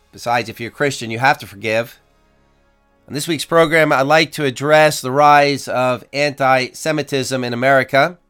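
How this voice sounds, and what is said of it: Raspy, hoarse voice. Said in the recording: “my raspy voice. I'm trying to get over some laryngitis.”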